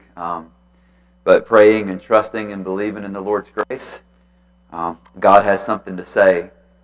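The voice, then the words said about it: Slightly scratchy voice. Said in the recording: “My voice is a little scratchy due, I think, to some of the smoke this week.”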